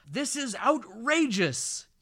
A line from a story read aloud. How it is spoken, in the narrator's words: yells the officer